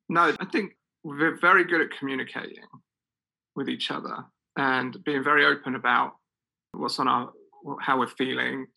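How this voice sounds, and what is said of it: Noticeable accent. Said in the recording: “it's your accent. ... It's the accent.”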